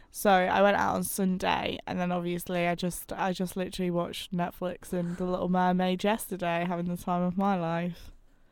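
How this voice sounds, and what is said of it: Croaky voice. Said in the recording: “My voice sounds so croaky today.”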